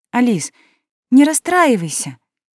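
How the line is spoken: Timid speech. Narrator (Russian): робко сказала Наоми

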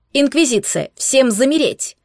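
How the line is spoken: Chilling bark. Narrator (Russian): рявкнул Эдвин так, что даже меня пробрало

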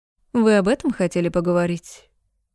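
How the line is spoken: Sarcastic. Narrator (Russian): Бросаю язвительно

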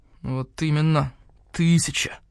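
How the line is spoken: Through gritted teeth. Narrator (Russian): Процедил сквозь зубы Мухтар

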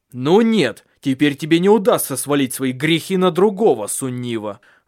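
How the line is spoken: Angry. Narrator (Russian): зло сказал он

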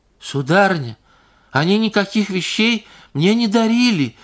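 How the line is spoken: Shrill squeal. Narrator (Russian): взвизгнула Паша, начиная понимать

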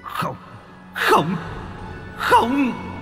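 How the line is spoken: Old man's resentful scream. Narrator (Vietnamese): Tiếng của lão gào thét bất cam

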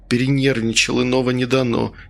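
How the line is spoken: Long drawn sigh. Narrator (Russian): Протяжно вздохнул Чумаков

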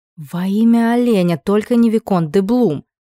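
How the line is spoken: Moaning. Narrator (Russian): простонала

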